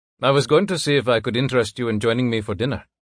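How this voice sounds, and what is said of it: Thick Indian accent character voice. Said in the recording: “He has a thick Indian accent.”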